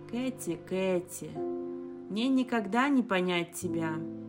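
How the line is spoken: Sigh. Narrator (Russian): вздохнул

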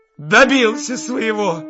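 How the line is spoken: Shout. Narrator (Russian): крикнула Катерина Ивановна

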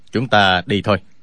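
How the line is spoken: Calm, cold. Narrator (Vietnamese): Tạ Tốn thản nhiên lạnh lùng nói

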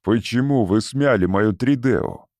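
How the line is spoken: Angry question. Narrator (Russian): сердито спросил Валанд

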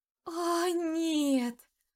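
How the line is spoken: Dismayed moan. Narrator (Russian): простонала я, увидев свое лицо на экране

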